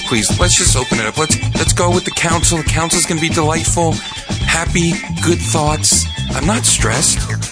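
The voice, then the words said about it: Soothing, calm voice. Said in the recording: “in a soothing voice, because if I try to talk in my normal podcasting voice”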